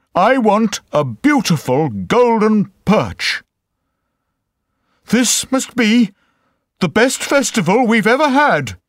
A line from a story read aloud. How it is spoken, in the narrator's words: he cried